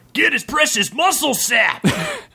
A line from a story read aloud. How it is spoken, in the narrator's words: shouted Donnarok